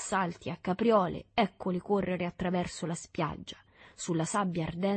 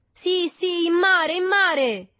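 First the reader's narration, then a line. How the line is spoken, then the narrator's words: Crowd shouting. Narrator (Italian): gridarono tutti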